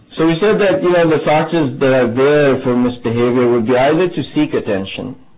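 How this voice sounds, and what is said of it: Strong foreign accent. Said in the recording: “I know I have a strong accent”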